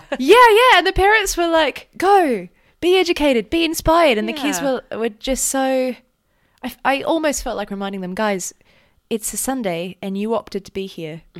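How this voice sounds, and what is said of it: Australian Melbourne accent. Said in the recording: “Maybe my rash Australian accent is scary. ... Your accent's not brash at all. ... I'm from Melbourne.”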